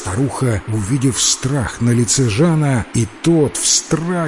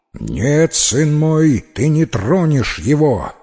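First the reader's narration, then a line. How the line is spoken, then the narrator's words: Menacing exclamation, mother. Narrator (Russian): грозно воскликнула его мать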